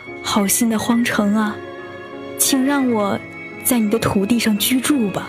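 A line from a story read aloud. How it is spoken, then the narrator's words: Old woman pleading. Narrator (Chinese): 一位孤苦伶仃的老妇人，他哀求道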